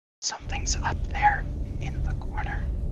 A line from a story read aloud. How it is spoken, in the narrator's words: go over to Elrond and whisper